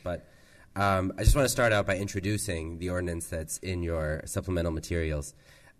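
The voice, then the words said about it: Nasal, congested voice. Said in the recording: “I apologize in advance for my nasal voice. ... I've got a little bit of a cold.”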